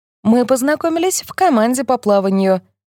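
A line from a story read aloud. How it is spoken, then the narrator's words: Cheerful. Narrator (Russian): весело говорит Гретта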